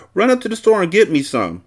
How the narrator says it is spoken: I blurted out, faking like I had the dementia

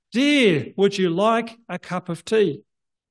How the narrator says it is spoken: said in a loud voice

